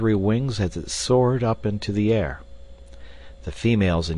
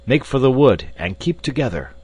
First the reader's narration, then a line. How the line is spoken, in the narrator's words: cried Lord John